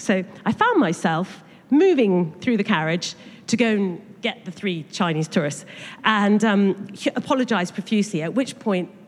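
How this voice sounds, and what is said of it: Posh English accent. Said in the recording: “it wasn't quite the same accent as their voice... we got a posh one”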